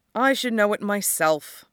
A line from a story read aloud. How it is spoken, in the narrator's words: Morgenstern sighed